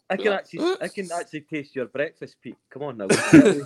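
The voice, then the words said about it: Put-on Finnish accent. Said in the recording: “Was that your Finnish accent then as well? ... Yes, that was it.”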